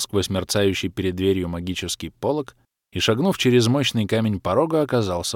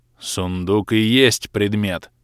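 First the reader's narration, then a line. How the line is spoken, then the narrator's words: Irritated mutter. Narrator (Russian): Несколько раздраженно буркнул архимаг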